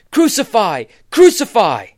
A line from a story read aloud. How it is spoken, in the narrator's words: the Jews cried out